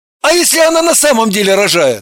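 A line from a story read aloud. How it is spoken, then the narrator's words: Irritated question. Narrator (Russian): Далила раздраженно спросила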